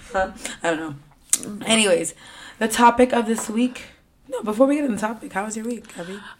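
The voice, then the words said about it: Hoarse, strained voice. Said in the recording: “If you guys are wondering why I sound like this, it's because I lost my voice... She sounds disgusting... it's kind of hot... I apologize for me sounding like this the rest of the episode”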